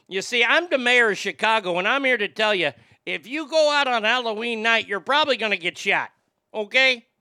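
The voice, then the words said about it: Put-on Chicago Midwestern accent. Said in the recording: “you got to have that Midwestern accent. It's not quite Sheboygan in Wisconsin ... Chicago is a little bit more and right at you when they talk to you”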